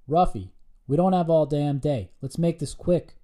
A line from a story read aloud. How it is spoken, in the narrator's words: bellowed the team lead